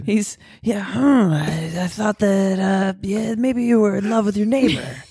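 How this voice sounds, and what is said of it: Bill Pullman impression. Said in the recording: “That's a good impression, actually.”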